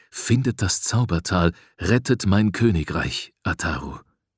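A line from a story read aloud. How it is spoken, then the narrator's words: Softly spoken. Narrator (German): sagte mir leise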